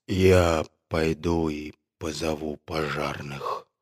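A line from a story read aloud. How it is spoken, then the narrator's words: Barely audible. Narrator (Russian): сказал он еле слышным голосом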